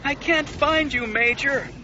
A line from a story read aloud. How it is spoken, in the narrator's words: her wingmate wailed